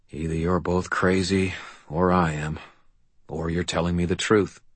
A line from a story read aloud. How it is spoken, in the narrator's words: He said quietly